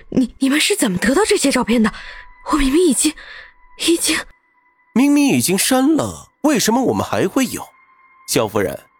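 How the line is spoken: Trembling voice. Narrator (Chinese): 唐宁声音颤抖道

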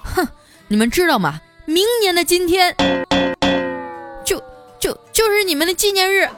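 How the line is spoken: Loud angry scolding. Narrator (Chinese): 大声的呵斥了那对狗男女

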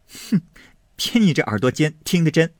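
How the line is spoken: Laughing. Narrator (Chinese): 晴雯赶着笑说道

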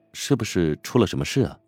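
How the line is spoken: Soft question. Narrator (Chinese): 乔治轻声问道

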